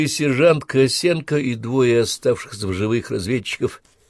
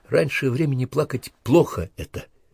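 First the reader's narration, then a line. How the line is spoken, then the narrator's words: Quiet speech. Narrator (Russian): негромко говорила Наталья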